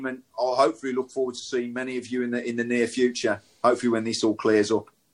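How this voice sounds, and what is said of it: Speaks with a regional English accent. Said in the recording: “you've got a brilliant accent and I love it”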